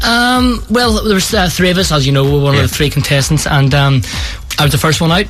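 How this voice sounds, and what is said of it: Northern Irish Belfast accent. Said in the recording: “you didn't understand my accent ... I wouldn't have flew the way from Belfast.”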